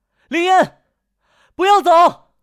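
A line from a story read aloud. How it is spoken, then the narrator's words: Shouting while chasing. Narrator (Chinese): 陆和欢 一边追林烟的船，一边大喊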